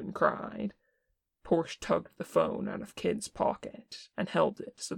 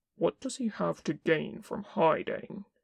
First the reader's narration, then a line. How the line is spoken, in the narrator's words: Kin asked tightly